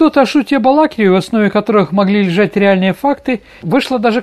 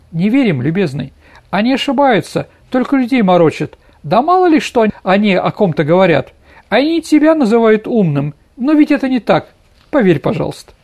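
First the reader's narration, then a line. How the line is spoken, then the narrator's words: Calm reply. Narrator (Russian): Балакирев спокойно ответил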